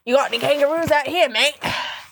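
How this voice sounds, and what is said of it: Put-on Australian accent. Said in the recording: “I picked up this fucking Australian accent ... the fucking Australian accent comes out. Do you think it's fucking believable?”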